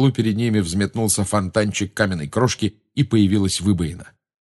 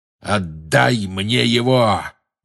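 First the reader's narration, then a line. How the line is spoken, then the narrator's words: Growl into ear. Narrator (Russian): прорычал ему в ухо чей-то голос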